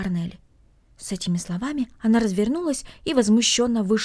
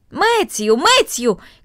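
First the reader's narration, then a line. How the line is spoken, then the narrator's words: Shouting. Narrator (Russian): крикнула она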